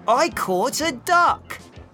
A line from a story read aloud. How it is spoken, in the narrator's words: he shouted